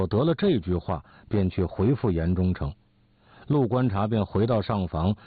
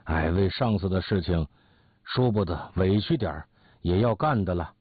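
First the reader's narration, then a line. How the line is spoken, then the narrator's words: Hesitant, sighing. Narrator (Chinese): 陆观察故意沉吟了一会儿，叹一口气说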